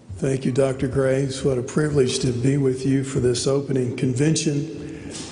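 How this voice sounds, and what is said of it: Raspy, hoarse voice. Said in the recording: “my raspy voice ... I have been breathing dust all summer ... this raspiness”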